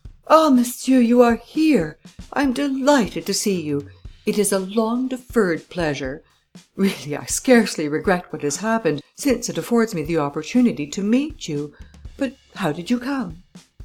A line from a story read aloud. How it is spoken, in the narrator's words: Devanne exclaimed with much gusto